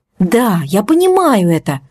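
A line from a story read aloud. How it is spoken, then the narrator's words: Exclaiming. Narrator (Russian): воскликнула Настя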